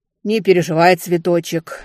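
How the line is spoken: Sharp shout. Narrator (Russian): прикрикнула из кухни мачеха

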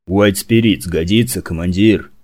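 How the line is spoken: Growl from the right. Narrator (Russian): рыкнул Фаза откуда-то справа

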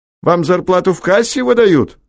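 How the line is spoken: Shout. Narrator (Russian): крикнул следователю Ройтман

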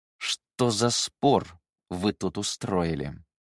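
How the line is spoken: Hissed through gritted teeth. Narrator (Russian): Сквозь зубы процедил Циян

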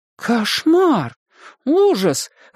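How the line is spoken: Exclaimed. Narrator (Russian): воскликнула Сьюзан

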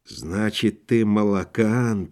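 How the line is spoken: Whisper. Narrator (Russian): прошептал Акинфиев

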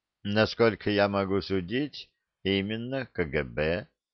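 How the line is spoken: Plain. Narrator (Russian): сказал Шумахер

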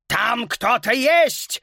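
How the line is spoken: Furious roar. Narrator (Russian): вне себя от ярости взревел директор

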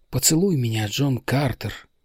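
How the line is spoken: Whisper. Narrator (Russian): прошептала она

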